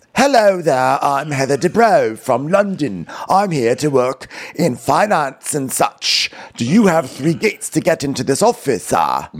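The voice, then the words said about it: Put-on British accent. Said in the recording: “She'd be trying on her British accent.”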